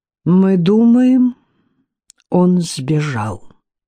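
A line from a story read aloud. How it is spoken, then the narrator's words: Slow, choosing words. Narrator (Russian): медленно, подбирая слова, произнес Луш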